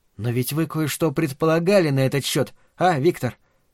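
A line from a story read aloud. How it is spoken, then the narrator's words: Quiet question. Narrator (Russian): так же тихо спросила Марина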